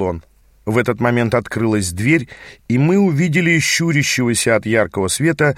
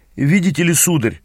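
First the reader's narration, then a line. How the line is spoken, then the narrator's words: Forced out, strained. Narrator (Russian): выдавил из себя наш проводник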